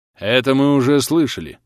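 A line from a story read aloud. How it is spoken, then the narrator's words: Irritated admiral. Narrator (Russian): раздраженно произнес вступивший в разговор адмирал Мэри Уэзер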